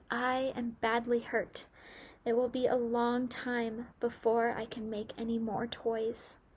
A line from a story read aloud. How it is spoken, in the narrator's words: Nifu said in a weak voice